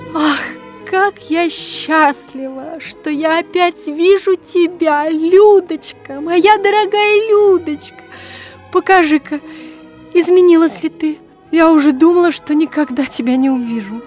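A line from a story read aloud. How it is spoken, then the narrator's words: Sobbing mother's whisper. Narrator (Russian): всхлипывая, шептала мама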